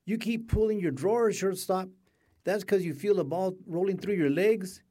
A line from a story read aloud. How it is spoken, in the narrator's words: shouted